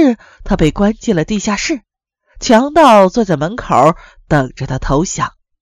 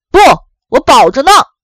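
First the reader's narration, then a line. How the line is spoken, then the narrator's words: Loud reply from inside. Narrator (Chinese): 科学家在里面同样大声回答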